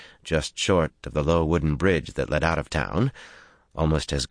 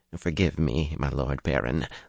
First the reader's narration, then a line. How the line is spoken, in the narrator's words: Balwer murmured